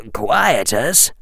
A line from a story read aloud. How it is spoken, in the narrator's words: said in a low, precise voice